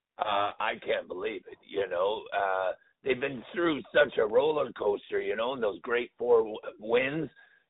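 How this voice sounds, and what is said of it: Rough, hoarse voice. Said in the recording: “My voice is a little rough, you know. It was a crazy game in there last night.”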